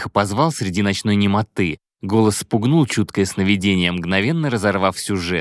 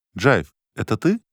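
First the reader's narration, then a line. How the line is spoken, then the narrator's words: Uncertain question. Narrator (Russian): спросил он неуверенно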